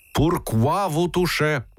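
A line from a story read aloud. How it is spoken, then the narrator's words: Shouting in broken language. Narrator (Russian): закричал Антон Пафнутич, спрягая с грехом пополам русский глагол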